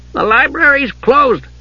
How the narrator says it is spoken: said in a loud voice

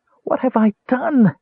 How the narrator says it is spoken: Tass wailed

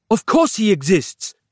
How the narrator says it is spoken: Capello snapped

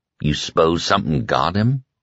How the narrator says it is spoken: Ralph asked softly

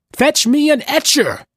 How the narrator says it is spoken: cried

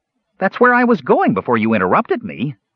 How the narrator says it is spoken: the Kender said indignantly

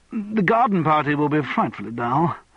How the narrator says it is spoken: said Charles desperately

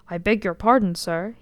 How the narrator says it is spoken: he said

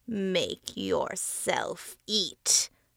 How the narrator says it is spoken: the face growled

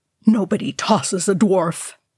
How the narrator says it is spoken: he growled

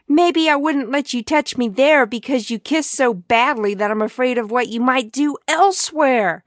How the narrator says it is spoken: screamed at him

